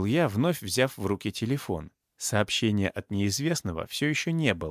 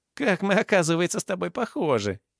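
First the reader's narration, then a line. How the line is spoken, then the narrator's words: Giggling. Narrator (Russian): хихикнул Карыч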